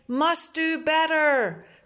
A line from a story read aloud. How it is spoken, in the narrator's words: Someone shouting